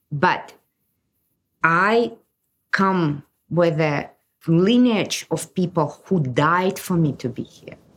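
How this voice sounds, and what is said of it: Non-native accented English. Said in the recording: “I barely speak English. You can hear my accent. ... I was born in the Soviet Union.”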